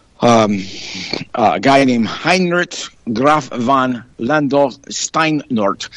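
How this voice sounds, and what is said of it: Attempted German accent. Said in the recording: “I'm trying to speak with a German accent”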